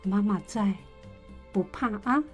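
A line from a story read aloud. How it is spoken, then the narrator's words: Soft-spoken mother. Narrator (Chinese): 妈妈抱着她轻声地说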